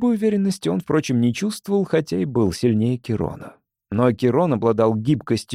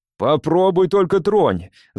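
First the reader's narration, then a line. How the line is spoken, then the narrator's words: Yelling. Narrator (Russian): завопил Эйлвин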